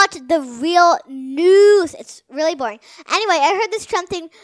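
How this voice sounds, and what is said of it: Usual voice. Nothing is said of it.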